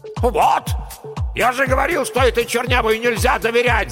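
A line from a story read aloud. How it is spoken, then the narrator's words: Man yelling angrily. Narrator (Russian): заорал геолог-разведчик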